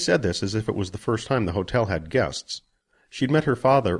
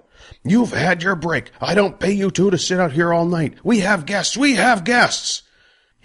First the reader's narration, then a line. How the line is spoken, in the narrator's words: A fat man started to yell